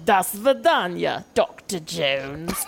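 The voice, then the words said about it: Clipped British-Russian accent, Cate Blanchett impression. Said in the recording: “Kate Blanchett's accent ... What is she, Russian? ... she vacillates back and forth between like Katharine Hepburn, Foghorn, right. Leghorn, and this very clipped British colonialist Russian accent.”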